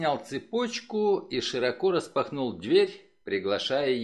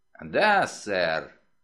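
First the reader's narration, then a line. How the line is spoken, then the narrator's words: Creaky voice through gap. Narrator (Russian): проскрипел через щель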